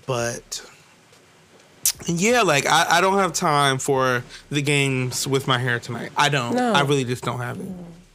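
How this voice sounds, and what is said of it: Sick, congested-sounding voice. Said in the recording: “as you can hear from my voice, I'm already in like the interim phase of a cold or allergies”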